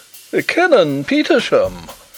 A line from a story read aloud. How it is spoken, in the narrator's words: exclaimed the Professor